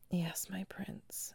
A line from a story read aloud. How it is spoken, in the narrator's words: she whispered